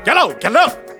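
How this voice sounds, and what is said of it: Gruff barking imitation of another voice. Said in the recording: “Was that a dog barking, or did you try to sound like Bounty Killer? ... my best Bounty Killer impersonation ... You suck.”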